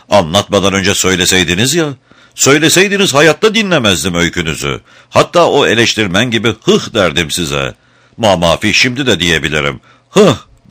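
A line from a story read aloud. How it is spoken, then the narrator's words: Shouted. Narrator (Turkish): diye bağırıp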